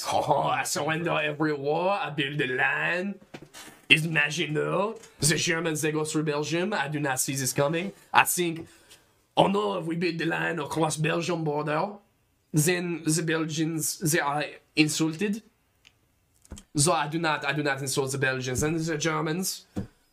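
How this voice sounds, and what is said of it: Exaggerated put-on French accent. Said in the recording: “We could do the worst accent in the world ... you speak like this”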